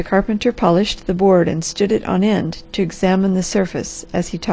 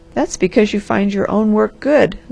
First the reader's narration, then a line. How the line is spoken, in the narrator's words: laughed the Harvester